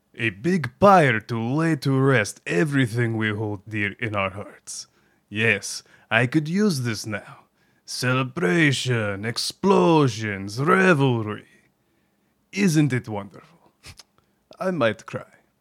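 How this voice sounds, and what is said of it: Character voice with put-on accent. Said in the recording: “I apologize in advance to anyone... With a similar accent,... I hope I don't butcher it... I'm terrible”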